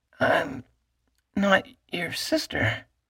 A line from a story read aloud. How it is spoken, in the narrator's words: she said hoarsely